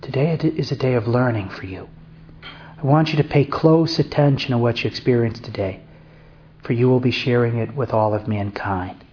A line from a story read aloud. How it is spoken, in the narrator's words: The Virgin Mary said in her soft, sweet, feminine voice